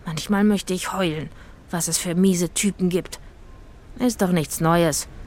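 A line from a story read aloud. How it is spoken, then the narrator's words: Sighing. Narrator (German): seufzte Itzig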